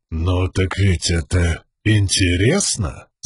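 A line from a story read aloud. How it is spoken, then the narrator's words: Thoughtful man. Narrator (Russian): Задумчиво проговорил мужчина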